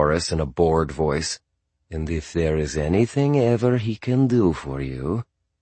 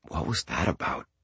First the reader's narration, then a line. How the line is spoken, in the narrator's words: I said quietly